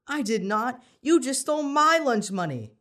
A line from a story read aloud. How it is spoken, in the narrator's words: Danny yelled back